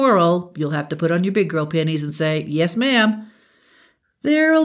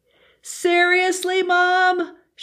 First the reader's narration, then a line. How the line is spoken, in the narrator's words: shouted